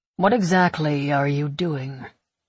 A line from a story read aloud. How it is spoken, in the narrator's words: He asks, his voice smooth and devoid of all emotion